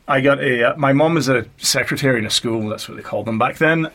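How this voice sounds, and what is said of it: North Jersey accent. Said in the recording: “Is that a Jersey accent? Is that from New Jersey? ... It's from North Jersey.”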